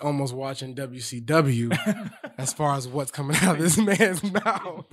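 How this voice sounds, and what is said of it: Usual voice. Nothing is said of it.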